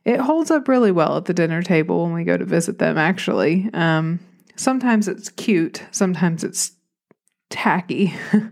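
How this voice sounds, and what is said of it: Southern American accent. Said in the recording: “I am the only one in my family with a Southern accent”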